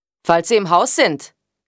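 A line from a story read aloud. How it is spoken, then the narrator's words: Called out. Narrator (German): rief er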